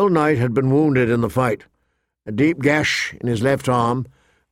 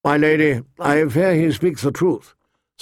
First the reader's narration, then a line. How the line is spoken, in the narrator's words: Sir Roderick said wearily